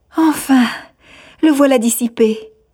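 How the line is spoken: Young woman exclaiming. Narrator (French): s'écria la jeune fille

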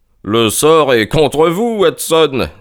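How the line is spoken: Laughing exclamation. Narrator (French): s'écria Holmes en riant

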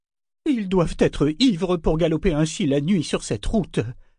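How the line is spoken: Disgusted exclamation. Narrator (French): s'exclama Kefria d'un ton dégoûté

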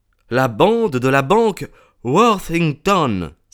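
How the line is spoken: Inspector's exclamation. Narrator (French): s'écria l'inspecteur

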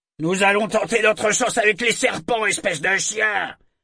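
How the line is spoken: Shouted. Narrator (French): cria-t-il à Kenneth

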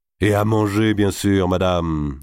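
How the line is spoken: Plain. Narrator (French): dit d'Artois

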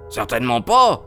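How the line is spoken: Exclaimed. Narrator (French): s'écria

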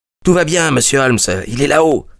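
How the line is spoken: Small boy exclaiming while running. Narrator (French): s'écria un petit gamin des rues en accourant

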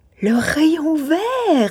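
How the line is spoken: Exclaimed. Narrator (French): s'écria-t-il

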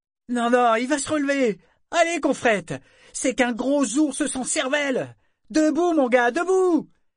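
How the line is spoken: Sailors shouting. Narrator (French): Les autres marins de la Vivacia criaient eux aussi

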